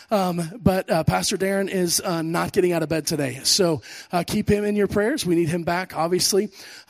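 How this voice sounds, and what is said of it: Voice worn from illness. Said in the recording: “you can hear in my voice, I've been sick all week... My voice is slowly catching up with the rest of my body”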